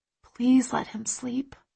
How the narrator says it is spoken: I whisper

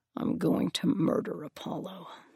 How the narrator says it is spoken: he said, mostly under his breath

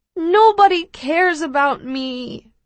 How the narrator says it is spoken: I moan

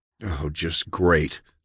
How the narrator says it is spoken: John sighed

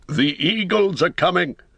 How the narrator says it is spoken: he cried in a loud voice ringing above the din

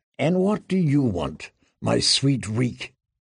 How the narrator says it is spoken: Ramsay murmured, as softly as a lover

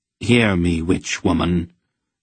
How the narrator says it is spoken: said in a clear voice

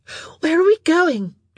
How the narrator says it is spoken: she gasped

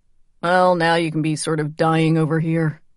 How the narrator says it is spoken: Charlie said dryly

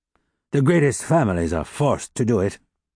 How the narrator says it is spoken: The old bourgeois, outraged at heart, had consented with a sigh

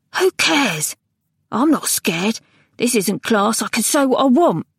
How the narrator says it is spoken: exclaim

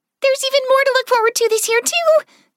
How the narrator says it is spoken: Clover blurted out

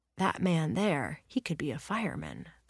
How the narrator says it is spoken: their parent whispers

